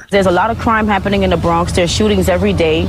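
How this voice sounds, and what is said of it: Strong New York accent. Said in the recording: “perfect New York accent”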